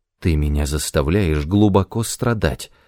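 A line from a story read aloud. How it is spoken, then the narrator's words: Whisper. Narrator (Russian): прошептала она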